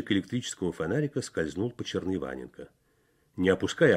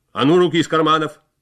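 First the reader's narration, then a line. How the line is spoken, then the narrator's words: Sentry's rough shout. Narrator (Russian): грубо крикнул часовой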